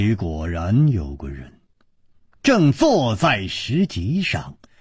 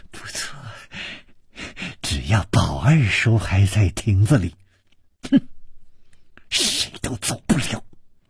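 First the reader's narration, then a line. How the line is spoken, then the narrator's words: Malicious smile. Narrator (Chinese): 施少奶奶的嘴角也泛起了一丝恶意的微笑，说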